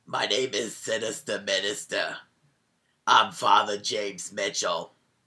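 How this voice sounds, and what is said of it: Imitates another person's voice. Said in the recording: “Was that not a good impression? ... that's what he sounded like. That's what his voice is.”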